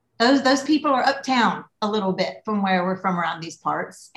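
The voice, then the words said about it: Thick Southern US accent. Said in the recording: “my accent is different because, yeah, I'm Southern, but I don't sound like I'm from Texas and I don't sound like I'm from Charleston ... my accent got more thick”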